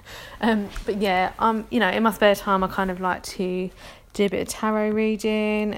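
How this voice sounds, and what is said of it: London accent. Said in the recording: “I'm from London. You can probably tell that from my accent... people are just going to have to deal with my London accent.”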